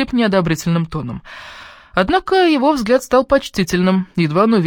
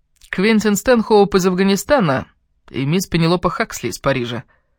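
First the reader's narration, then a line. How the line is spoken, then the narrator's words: Half-joking tone. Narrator (Russian): сказал полушутливым тоном Квентин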